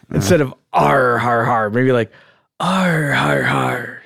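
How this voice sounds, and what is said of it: Airy pirate accent. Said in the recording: “the traditional pirate accent ... Maybe a little airier”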